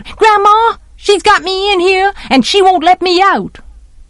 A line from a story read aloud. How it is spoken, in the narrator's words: Francis yelled